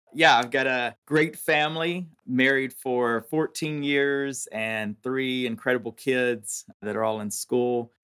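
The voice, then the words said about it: Southern American accent. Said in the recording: “you have a Southern accent ... I'm a Southern boy through and through”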